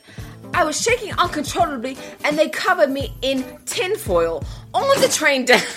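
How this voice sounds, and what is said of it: Put-on British accent. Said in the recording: “Oh, this is British. I should do it in a British accent, right?”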